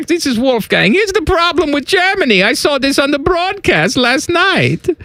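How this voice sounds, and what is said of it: Put-on German accent. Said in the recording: “Is that a German accent? ... This is my German accent.”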